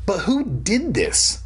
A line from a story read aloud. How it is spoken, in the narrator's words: Mom cried, asking the obvious questions